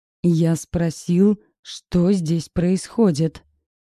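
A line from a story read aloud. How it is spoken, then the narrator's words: Roared. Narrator (Russian): взревел Бирюков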